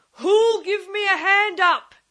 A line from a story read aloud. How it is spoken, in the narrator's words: roared